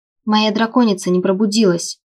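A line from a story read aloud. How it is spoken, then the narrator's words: Sharper than intended objection. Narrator (Russian): Немного более резко, чем собиралась, возразила я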